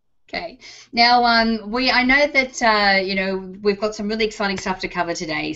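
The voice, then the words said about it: Texas accent. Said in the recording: “I just love it the way you say my name ... with my Texas accent ... with your Texas accent”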